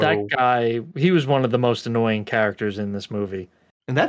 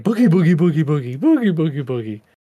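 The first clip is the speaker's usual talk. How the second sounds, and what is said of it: Mimics a goofy zombie voice. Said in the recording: “his zombie impression”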